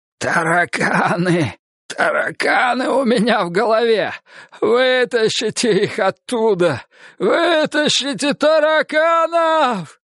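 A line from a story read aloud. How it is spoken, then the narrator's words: Hoarse wheeze. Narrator (Russian): прохрипел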